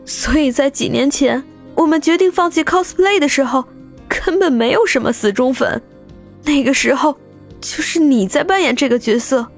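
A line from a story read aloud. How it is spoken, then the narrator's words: Bitter laughing, tearful. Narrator (Chinese): 张俏佳 呵呵的苦笑起来，直笑的眼中已经是泪花闪烁，还说道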